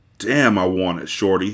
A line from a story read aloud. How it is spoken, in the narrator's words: he growled